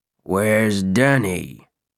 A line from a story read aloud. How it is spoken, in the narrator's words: he asked in a low but distinct voice